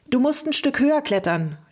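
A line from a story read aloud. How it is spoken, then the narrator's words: Called out. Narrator (German): rief Helmi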